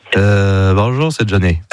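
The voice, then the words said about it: Nasal, stuffy-nosed imitation of a singer. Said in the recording (French): “imitation de Johnny ... C'est Johnny qui parle du nez, qui est enrhumé, quoi.”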